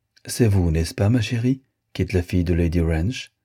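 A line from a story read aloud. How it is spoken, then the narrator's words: Amiable tone. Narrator (French): continua d'un ton aimable la princesse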